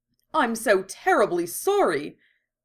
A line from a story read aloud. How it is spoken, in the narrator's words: Botan gasped to Madame Hooch